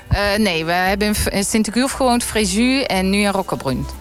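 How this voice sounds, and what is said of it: Brabant Dutch accent. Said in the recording (Dutch): “jij hebt helemaal geen Frans tongval... Ik hou mijn Brabants accent. Ja, dat blijft gewoon.”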